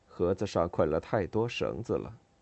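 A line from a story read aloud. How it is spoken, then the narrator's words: Joking tone. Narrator (Chinese): 只用开玩笑的语气说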